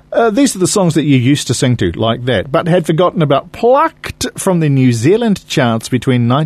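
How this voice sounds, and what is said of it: Usual voice. Nothing is said of it.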